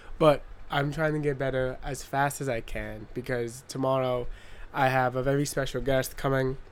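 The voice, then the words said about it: Nasal, slightly slurred sick voice. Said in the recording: “I am sick as a dog right now ... my speech is a little slurred ... I sound nasally as fuck”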